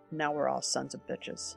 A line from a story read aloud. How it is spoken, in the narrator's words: The Harvard physicist muttered